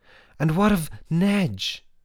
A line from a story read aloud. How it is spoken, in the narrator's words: Roz thought desperately and called out